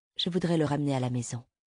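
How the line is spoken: Plain. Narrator (French): dit la femme

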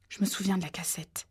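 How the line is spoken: Murmured. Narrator (French): murmurait Ginny

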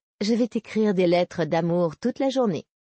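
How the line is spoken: Plain. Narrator (French): répondit-elle

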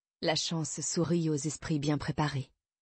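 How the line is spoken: Murmured. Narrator (French): murmura-t-elle

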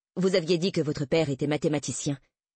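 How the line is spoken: Curt, dry. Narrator (French): dit-elle sèchement

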